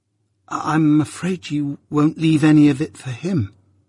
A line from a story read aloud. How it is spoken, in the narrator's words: said I timidly, after a silence